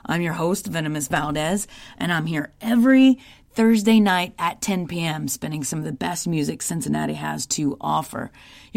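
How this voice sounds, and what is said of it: Hoarse voice. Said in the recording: “I'm a little hoarse this evening ... I screamed my head off”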